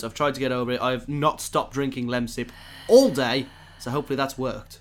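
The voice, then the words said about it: Slightly hoarse voice. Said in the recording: “I sound a little bit hoarse ... a little bit of a cold, a little bit of a sore throat ... Feeling a bit hoarse, aren't we? ... Bit hoarse.”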